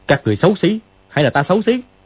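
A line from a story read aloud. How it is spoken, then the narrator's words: Shouted. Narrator (Vietnamese): Dương Quá quát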